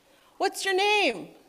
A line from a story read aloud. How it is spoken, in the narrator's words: someone shouted